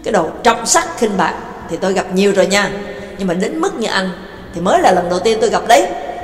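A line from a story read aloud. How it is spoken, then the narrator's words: Furious scolding shout. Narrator (Vietnamese): Nhạc Dương suýt nữa thì mắc nghẹn, tức tối quát miệng ra mắng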